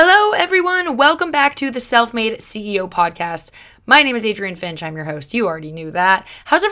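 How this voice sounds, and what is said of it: Usual voice. Nothing is said of it.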